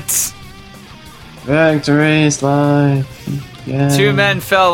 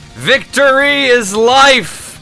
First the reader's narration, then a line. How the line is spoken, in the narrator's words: the Jem'Hadar, who charged forward yelling